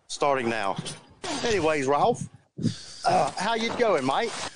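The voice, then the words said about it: Failed English accent, sounds Australian. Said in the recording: “I'm going to speak in an English accent ... Wait, that's Australian. God dang it, I can't do it.”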